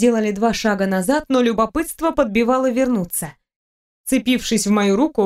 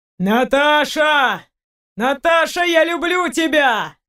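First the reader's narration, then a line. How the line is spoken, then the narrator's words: Shouting. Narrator (Russian): кричал Сергей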